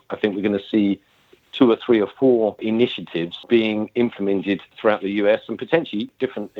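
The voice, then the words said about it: British accent. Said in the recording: “as you can tell from my accent, I'm from the UK.”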